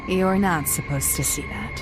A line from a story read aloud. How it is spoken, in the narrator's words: let out a big sigh, and mumbled